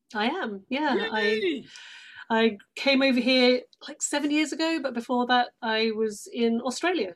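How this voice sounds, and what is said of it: British accent. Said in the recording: “you probably hear the British accent. You are, you're from London.”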